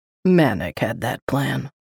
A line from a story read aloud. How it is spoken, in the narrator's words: Paul grumbled